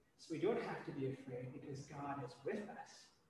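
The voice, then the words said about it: American accent. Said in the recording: “you can tell by my accent, I'm American”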